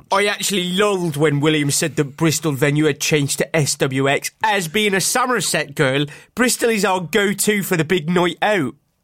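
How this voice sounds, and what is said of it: Put-on Somerset West Country accent. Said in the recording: “when you've been trying to do a Bristol accent, you've done Somerset. And when you're trying to do a Somerset accent, you've just done a Bristol accent.”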